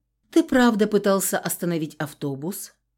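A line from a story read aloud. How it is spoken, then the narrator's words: Matter-of-fact question. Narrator (Russian): спросила буднично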